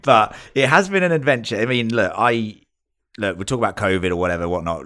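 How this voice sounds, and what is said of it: British English accent. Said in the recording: “I am British, you can tell from this accent”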